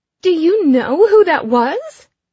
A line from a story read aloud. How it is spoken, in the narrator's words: Ellie shrieks